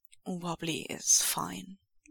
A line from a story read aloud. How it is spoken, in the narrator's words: Lan Wangji says gravely